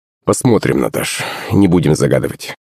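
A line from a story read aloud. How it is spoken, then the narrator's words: Muttered. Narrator (Russian): пробормотал Иван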